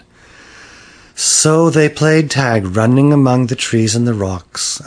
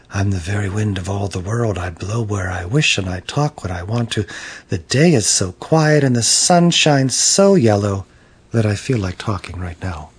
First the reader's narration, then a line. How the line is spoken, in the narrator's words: the wind very softly said